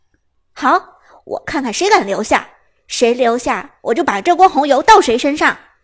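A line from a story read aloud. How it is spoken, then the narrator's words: Stern angry voice. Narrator (Chinese): 伍兹柳眉倒竖，厉声说道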